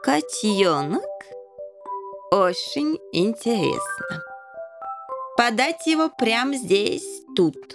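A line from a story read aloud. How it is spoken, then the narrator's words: King's accented speech. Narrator (Russian): Король всегда говорил с акцентом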